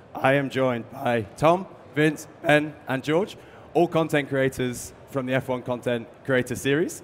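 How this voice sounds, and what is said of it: Hoarse, strained voice. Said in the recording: “As you can probably tell, about 2 hours ago, I couldn't even speak. I basically lost my voice.”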